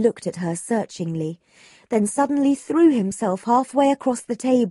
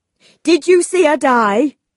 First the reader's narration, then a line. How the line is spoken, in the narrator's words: he seized her arm and cried